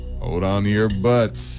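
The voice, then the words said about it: Imitates another person's voice. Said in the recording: “You want to try the impression again, maybe? ... That was good.”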